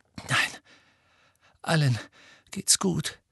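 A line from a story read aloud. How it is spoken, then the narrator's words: Panting. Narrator (German): keuchte Harry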